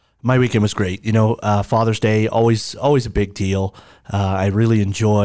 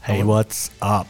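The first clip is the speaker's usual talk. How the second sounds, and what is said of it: Breathy, slightly sexy imitated voice. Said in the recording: “really nice and like a little bit sexy right there ... get real breathy ... best impression”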